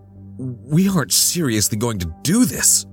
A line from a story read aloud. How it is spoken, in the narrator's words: I gasped